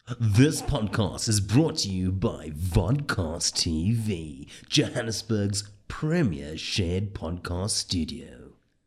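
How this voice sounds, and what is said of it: Old-school radio presenter voice. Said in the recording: “That's a original 1990s, early 2000s radio voice”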